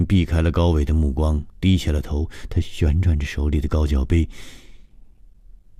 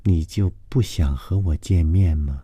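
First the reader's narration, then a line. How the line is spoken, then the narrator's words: Very feminine voice. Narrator (Chinese): 高伟的声音极富女人味说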